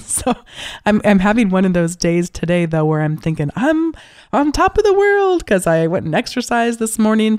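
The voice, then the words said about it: Slightly hoarse voice. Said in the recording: “I had a cold and here I am again, just getting over another one... my voice may be a little hoarse today”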